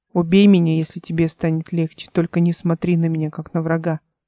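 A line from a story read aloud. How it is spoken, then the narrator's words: Plain. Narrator (Russian): сказал он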